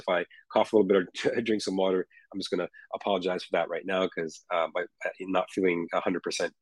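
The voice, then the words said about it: Hoarse voice. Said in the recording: “please forgive me for my voice... my voice is a little hoarse.”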